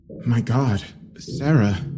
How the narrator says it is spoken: I mumbled

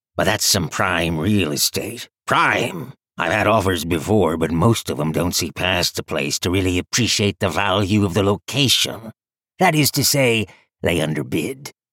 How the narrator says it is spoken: he rumbled

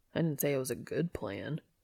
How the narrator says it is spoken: he grumbles

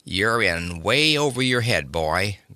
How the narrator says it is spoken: growled Polly

